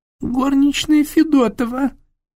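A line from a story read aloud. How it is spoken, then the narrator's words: Nasty squeaky voice. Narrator (Russian): пропищал Фондорин противным голоском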